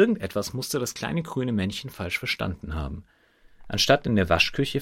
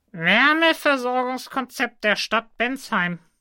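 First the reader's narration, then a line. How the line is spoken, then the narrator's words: Little man reading aloud. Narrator (German): las das Männchen laut vor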